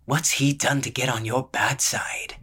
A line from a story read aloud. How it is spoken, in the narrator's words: said in a husky voice